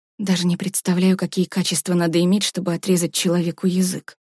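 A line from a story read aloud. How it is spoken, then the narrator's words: Mutter. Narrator (Russian): пробормотала Варя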